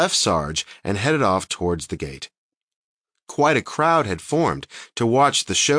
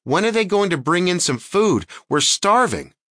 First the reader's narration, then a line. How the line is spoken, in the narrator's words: a woman shouted